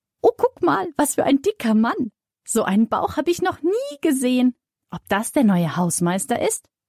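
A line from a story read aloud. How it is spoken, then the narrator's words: Squeaky voice. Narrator (German): piepst Sonja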